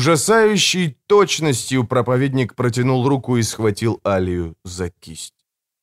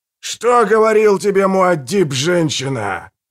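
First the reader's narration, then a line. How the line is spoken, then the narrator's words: Thunderous old man's question. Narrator (Russian): громовым голосом спросил старик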